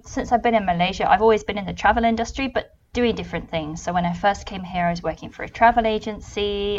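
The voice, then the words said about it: British accent. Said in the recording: “you can probably tell from my accent, I'm not Malaysian. I'm from the UK originally”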